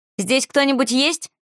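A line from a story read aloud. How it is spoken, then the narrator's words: Shouting into silence. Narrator (Russian): крикнула в тишину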